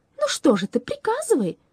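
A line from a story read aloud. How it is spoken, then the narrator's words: Exclaiming. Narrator (Russian): воскликнула она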